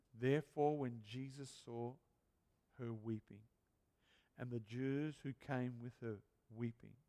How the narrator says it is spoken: it says

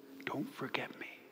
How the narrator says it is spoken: God sometimes whispers

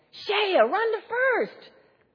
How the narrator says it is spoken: Everyone started yelling

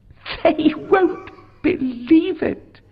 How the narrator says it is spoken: she laughed

